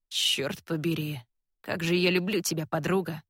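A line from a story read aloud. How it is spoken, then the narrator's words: Hoarse. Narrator (Russian): хрипло говорит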